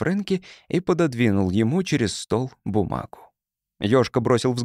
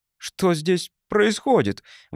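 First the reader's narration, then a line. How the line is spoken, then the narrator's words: Exclaimed. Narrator (Russian): воскликнул Ёшка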